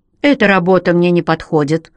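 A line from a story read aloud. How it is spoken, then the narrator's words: Snapping. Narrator (Russian): огрызнулся Рек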